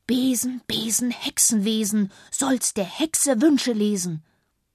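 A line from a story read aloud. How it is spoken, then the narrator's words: Deep breath, then hiss. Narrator (German): Luzi holte tief Luft, dann warf sie den Kopf zurück und zischte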